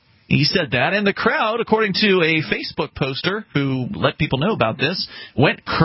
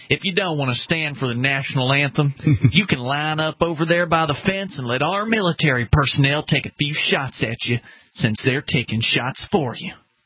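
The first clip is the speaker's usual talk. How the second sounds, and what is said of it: Put-on Southern US accent. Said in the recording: “I should do my southern accent.”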